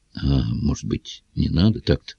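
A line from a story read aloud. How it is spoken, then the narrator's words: Timid old man interjecting. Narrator (Russian): Робко вмешался леший полуэкт, старичок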